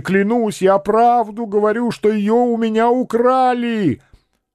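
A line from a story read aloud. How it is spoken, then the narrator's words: Shouting even louder. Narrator (Russian): Каландрино закричал еще сильнее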